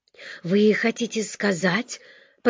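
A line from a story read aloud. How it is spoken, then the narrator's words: Muttered. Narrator (Russian): пробормотал он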